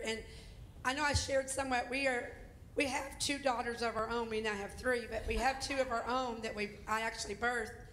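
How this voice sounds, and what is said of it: Southern accent, slightly hoarse voice. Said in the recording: “I'm more of the southern part of the family. I do have more of an accent than my husband does ... I kind of lost my voice last night”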